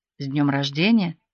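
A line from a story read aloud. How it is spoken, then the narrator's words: Whisper close to ear. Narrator (Russian): отец обычно произносил шепотом, приблизив губы к моему уху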